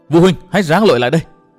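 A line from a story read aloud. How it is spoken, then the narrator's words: Urgent shout. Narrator (Vietnamese): Nguyên Bình hét lớn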